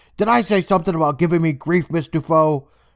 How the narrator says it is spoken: the guy, he yells at her saying

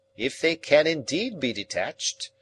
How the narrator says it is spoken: Summerlee grumbled

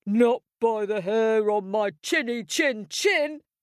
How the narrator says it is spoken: shouted Big Pig

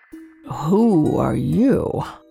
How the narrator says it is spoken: asked in a sleepy voice

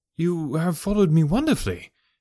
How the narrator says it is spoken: I exclaimed

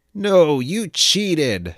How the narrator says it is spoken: shouted Xever

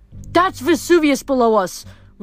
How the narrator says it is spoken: Reyna shouted over the wind

